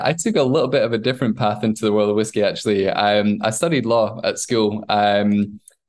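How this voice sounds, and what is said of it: Scottish accent. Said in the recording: “grew up in Scotland ... That explains whole... the accent.”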